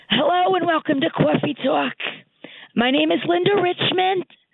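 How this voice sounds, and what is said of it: Mike Myers' Linda Richmond impression. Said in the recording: “I would do these reports as Linda Richmond, which was Mike Myers' character on SNL.”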